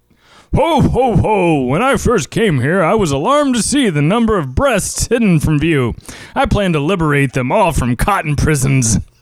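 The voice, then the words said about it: Santa Claus character voice. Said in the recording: “show everyone how you do a great Santa Claus impression”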